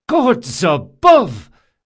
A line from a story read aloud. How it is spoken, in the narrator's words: cried Drakasha